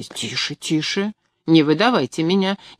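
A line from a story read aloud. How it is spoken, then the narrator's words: Quiet speech. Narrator (Russian): негромко произнес он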